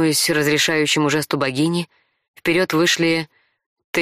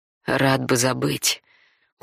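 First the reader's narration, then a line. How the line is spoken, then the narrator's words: Through gritted teeth. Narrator (Russian): процедил сквозь зубы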